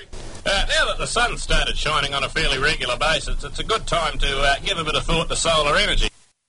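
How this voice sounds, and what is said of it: New Zealand accent. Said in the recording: “That's a very nice Australian accent ... Except it was New Zealand ... That was a Kiwi”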